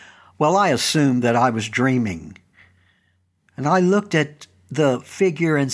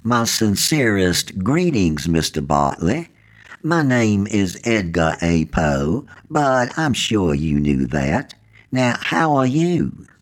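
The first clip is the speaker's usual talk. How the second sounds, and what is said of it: Soft voice, southern accent. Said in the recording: “He spoke in a soft voice with a southern accent.”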